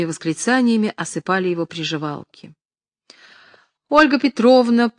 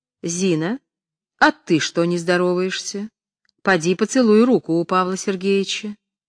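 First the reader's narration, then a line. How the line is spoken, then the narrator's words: Stern. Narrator (Russian): Наталья Кирилловна строго сказала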